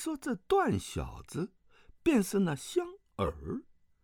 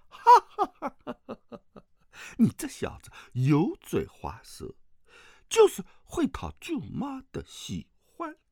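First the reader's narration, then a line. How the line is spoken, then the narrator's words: Hearty laughter. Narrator (Chinese): 王夫人哈哈大笑，说道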